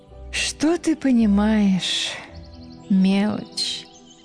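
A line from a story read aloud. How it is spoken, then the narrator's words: Languid sigh. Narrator (Russian): томно вздохнула упругой грудью девушка лето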